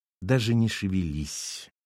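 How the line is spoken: Quiet command. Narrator (Russian): негромко приказала Валентина

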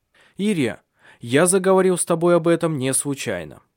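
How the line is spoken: Resolute tone. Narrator (Russian): сказал он решительным тоном

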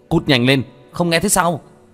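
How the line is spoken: Angry shout. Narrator (Vietnamese): Vương Quân Diệt quát lên

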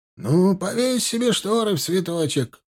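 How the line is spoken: Grumbled. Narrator (Russian): пробурчал на это Степаныч

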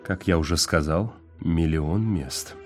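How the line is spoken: Muttering. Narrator (Russian): пробормотал Уит

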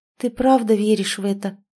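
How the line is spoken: Timid question, female friend. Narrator (Russian): робко спросила подруга

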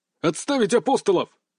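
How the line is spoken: Barked. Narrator (Russian): рявкнул взводный

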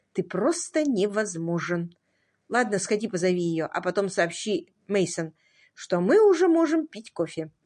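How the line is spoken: Quiet, composed. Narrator (Russian): Адриана тихо сказала

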